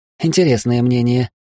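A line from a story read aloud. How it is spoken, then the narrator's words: Amused snort. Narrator (Russian): хмыкнула Хильда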